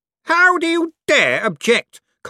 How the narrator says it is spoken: Cosmo spat

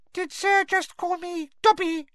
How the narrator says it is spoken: squeaked the elf curiously from between its fingers

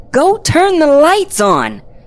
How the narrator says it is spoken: I yelled

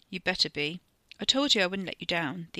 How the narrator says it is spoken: Theo said, trying to keep his voice level

